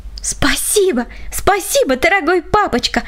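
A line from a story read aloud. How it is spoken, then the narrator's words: Overjoyed little girl exclaiming. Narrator (Russian): воскликнула малышка от избытка чувств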